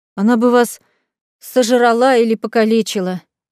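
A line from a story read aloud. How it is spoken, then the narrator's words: Sorrowful sigh. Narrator (Russian): вздохнула сокрушенно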